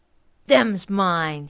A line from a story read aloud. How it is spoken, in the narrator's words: growled